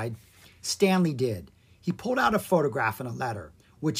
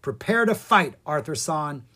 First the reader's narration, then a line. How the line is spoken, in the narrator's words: he cried